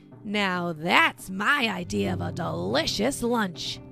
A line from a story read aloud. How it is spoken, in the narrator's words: Janja growls